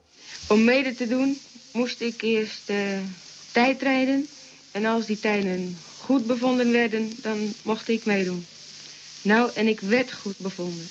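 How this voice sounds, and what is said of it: Typical Ilpendam regional Dutch accent. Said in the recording (Dutch): “een bepaald accent wat ik bij Annette Gerritsen ook hoor. Ilpendams accent. ... Ilpendams, ja. Mooi. Heel typisch.”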